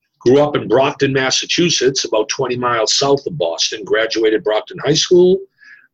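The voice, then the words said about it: Pronounced Boston accent. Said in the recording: “you have a pronounced Boston accent or Boston accent.”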